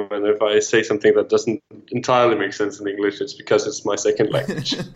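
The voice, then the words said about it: Danish accent. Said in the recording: “is from Denmark... That's where the accent comes from”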